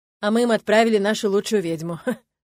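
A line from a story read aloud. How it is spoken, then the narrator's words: Amused snort. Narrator (Russian): хмыкнул Арни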